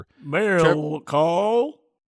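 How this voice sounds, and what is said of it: Cow-like character voice. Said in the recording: “That was a cow that just learned English. ... I literally was going to say it sounded like a cow.”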